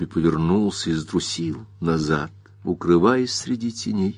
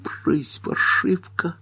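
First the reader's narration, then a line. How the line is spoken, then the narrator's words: Whisper. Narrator (Russian): прошептал Бобби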